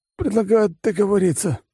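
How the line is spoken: Wounded hoarse wheeze. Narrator (Russian): прохрипел раненый

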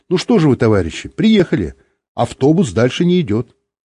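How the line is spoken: Cheerful. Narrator (Russian): весело сказала

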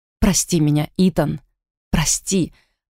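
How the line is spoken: Hoarse, choking cough. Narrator (Russian): прохрипела я и захлебнулась в жутком приступе кашля

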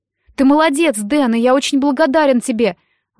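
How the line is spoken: Exclaiming. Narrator (Russian): воскликнул Джек

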